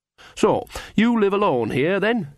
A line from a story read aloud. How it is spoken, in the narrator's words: said brightly